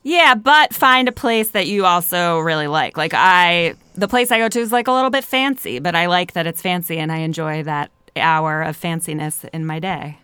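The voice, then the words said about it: Philadelphia accent. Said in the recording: “I like the way you said fancy. ... With my Philadelphia accent.”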